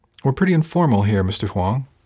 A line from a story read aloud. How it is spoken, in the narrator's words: Casey said